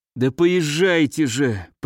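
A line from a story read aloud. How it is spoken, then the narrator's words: Moaning. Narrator (Russian): простонал Леонид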